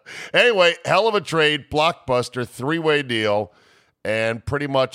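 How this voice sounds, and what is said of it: Usual voice. Nothing is said of it.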